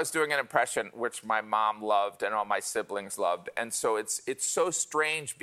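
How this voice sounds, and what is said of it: Usual voice. Nothing is said of it.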